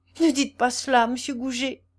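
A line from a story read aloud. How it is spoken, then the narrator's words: Panicked exclamation. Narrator (French): s'écria-t-elle, affolée de le voir ainsi à ses pieds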